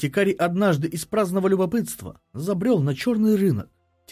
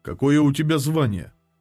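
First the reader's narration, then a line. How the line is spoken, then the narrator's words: Calm question. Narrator (Russian): спокойно спросил Варил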